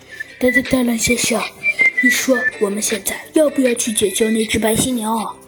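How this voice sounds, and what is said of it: Quiet, soft-voiced little chick. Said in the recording (Chinese): “小鸡墩墩小声的问”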